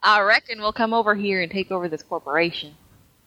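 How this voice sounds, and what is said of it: Put-on Southern Larry the Cable Guy accent. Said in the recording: “Maybe he'll do a Southern accent. Maybe he'll do a Larry the Cable Guy accent.”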